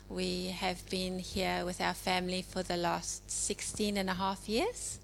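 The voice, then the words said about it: South African accent. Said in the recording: “as you can hear probably from my accent, I'm originally from South Africa”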